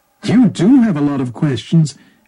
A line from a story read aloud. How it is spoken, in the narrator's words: exclaimed Bhikkhuni Gotami